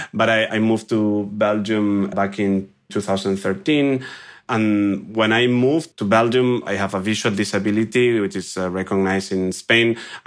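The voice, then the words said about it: Spanish accent in English. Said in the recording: “I'm originally from Spain, as you can guess from my accent”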